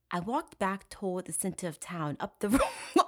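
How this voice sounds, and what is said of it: Fake British accent. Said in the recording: “I'm trying to do his fucking like fake British accent”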